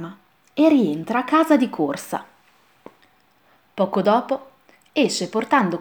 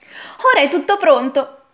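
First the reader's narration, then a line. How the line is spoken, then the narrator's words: Exclaimed. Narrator (Italian): esclama Alì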